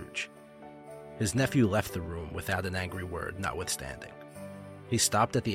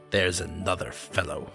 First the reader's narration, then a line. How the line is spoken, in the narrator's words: muttered Scrooge